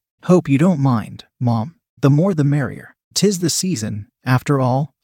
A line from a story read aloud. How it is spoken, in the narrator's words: chuckled